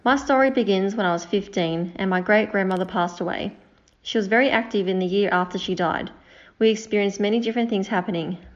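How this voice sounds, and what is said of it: Speaks with a noticeable accent. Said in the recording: “love that accent.”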